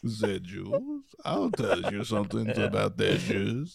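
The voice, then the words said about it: Put-on vaguely French accent. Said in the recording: “this Austrian character I have ... It's kind of a French one.”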